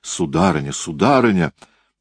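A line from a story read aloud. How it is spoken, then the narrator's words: Frightened exclamation. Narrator (Russian): Сам стряпчий испуганным голосом воскликнул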